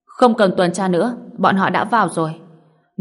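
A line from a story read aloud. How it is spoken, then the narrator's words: Cold shout. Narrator (Vietnamese): Cặp mắt của Ruth trở nên lạnh băng, quát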